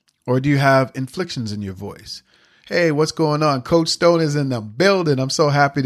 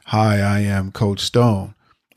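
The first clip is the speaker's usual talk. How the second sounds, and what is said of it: Flat monotone delivery. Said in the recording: “you just sound like this over and over and over again? ... Is it monotone like that? ... One was very monotone.”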